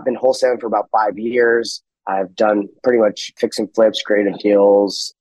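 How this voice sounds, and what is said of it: Rough, strained sick-sounding voice. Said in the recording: “Sorry about the voice. ... I guess I came down with something ... It's just my voice is jacked up.”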